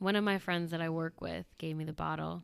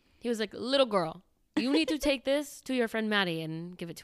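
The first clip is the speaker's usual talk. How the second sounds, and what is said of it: Poor imitation of a Panamanian man. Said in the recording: “That was a horrible imitation of him, but he's from Panama.”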